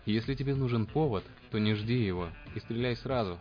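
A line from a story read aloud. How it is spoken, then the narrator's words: Frightened. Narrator (Russian): испуганно добавил низкорослый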